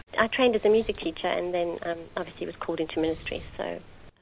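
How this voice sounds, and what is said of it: South African accent. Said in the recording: “I grew up in South Africa, in Johannesburg. ... you can hear from my accent, I'm not a local girl.”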